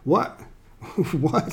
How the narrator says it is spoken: stammered

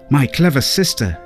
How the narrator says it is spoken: exclaimed

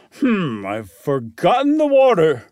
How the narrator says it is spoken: he exclaimed

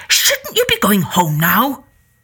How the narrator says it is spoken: Finally, he snapped

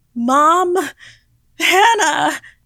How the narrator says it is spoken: I screamed out

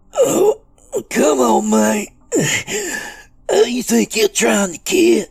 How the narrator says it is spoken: In between groans of pain, Doobie rasped

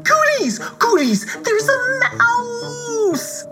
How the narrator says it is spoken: cried

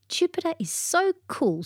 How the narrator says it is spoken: she exclaimed

